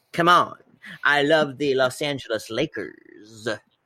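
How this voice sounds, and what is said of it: Poor Jack Nicholson impression. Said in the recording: “is this a good impression or a bad one? ... Oh, it's not good. It's not good. ... Jack Nicholson.”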